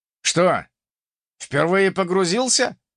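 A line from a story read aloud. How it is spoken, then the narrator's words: Smirking snort. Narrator (Russian): хмыкнул персонаж с ником Ультиматор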